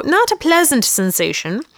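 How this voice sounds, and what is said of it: Put-on British accent. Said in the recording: “Your accent was good. ... He's from the UK.”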